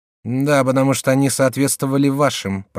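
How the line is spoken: Grumbling. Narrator (Russian): проворчала Екатерина Медичи

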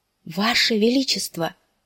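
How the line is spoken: Barely breathed out. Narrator (Russian): едва выдохнул он наконец

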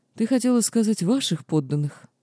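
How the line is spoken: Gentle interrupting tone. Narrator (Russian): ласковым тоном прервал меня кесарь

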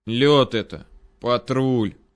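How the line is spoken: Weary foreboding sigh. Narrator (Russian): Вздохнул я, предчувствуя новые приключения на свою 5-ю точку

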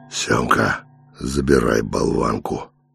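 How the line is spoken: Tired. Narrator (Russian): устало сказал он

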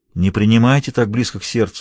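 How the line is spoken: Soft. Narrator (Russian): мягко сказал он

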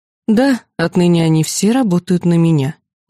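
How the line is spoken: Weary confirmation. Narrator (Russian): устало подтвердила

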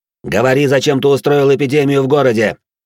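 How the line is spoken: Barked harshly. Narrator (Russian): рявкнул я на де Бордо

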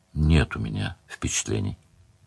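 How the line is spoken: Said quietly. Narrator (Russian): сказал Леверлин тихо

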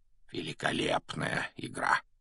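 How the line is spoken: Quiet, for one listener. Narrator (Russian): негромко, чтобы его мог слышать только Гарри, произнес Дамблдор

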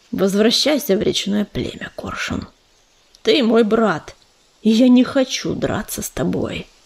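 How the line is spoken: Quiet. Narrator (Russian): Ежевика тихо сказал

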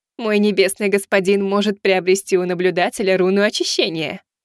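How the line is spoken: Giggling. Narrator (Russian): хихикнула Азимандия

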